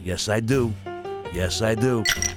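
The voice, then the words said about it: Imitates another person's voice. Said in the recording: “my De Niro impression.”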